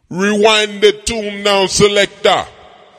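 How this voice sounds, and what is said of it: Put-on Jamaican accent. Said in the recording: “speak a Jamaican accent, man. I do it very well. I fake it very well.”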